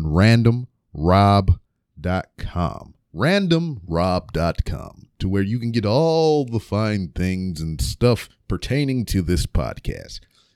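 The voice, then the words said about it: Semi-radio announcer voice. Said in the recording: “that was my semi-radio voice”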